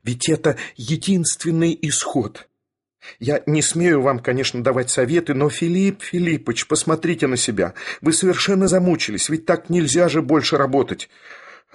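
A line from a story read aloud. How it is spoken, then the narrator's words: Passionate exclamation, then whisper. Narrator (Russian): страстно воскликнул Барменталь … продолжал шепотом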